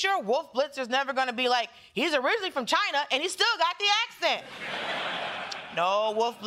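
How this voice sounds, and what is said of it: Usual voice. Nothing is said of it.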